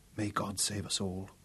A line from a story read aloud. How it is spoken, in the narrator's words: she whispered